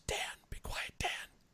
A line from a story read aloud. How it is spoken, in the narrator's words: whispered